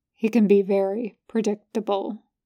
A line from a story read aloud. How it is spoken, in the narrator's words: he murmurs